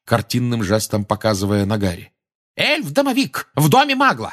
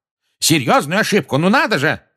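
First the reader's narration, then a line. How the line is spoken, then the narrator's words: Yelling. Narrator (Russian): заорал Фадж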